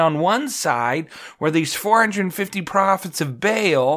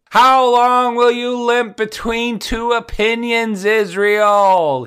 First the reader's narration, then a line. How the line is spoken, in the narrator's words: He yells out, and it echoes off the surrounding rocky walls